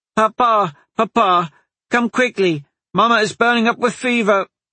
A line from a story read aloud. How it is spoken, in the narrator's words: the girl cried out, tears streaming down her face